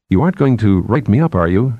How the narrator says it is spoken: she asked nervously

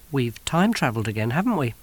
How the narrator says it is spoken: said Kirsty calmly

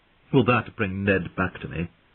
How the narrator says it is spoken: said sharply

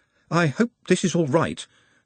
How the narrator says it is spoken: said Nut nervously

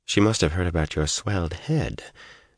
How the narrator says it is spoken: Egwene said softly

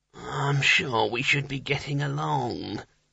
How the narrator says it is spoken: muttered, without much conviction

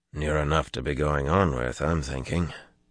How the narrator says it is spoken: Winter muttered under his breath

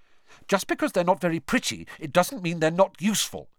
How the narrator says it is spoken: Hermione snapped

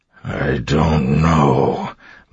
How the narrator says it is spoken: Marsh said, his voice coming out in a growl

